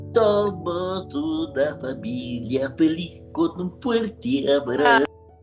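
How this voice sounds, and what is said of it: Cartoon character voice, Barney. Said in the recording (Spanish): “hacer la voz así de Barney”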